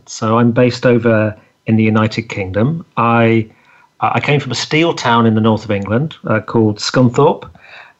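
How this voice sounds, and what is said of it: English accent. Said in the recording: “you may, may notice I have an English accent.”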